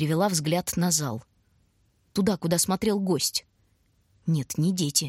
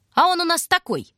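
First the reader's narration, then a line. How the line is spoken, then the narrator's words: Shouted. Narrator (Russian): выкрикнул кто-то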